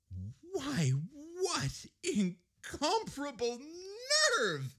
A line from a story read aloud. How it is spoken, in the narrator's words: exclaimed Edith